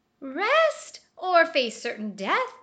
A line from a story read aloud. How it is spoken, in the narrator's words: cried the sugar glider